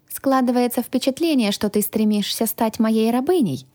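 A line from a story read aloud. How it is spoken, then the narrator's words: Thoughtful. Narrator (Russian): задумчиво произнесла я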